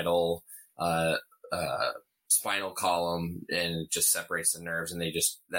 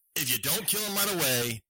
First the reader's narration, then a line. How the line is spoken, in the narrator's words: they scream